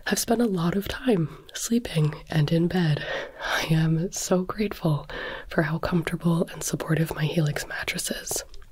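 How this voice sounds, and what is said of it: Sick-sounding voice. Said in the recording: “You can probably hear it in my voice, but I have been sick for the last week plus.”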